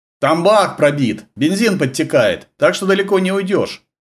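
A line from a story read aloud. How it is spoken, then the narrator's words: Gloating shout through bared teeth. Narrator (Russian): Злорадно ощерясь, крикнул Сергею вслед кубинец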